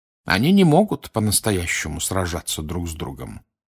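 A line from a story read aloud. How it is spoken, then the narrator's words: Plain. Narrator (Russian): ответил Дамблдор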